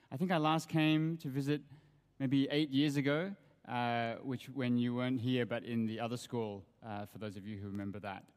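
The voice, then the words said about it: Australian accent. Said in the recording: “You can probably hear from my accent that I come from Australia.”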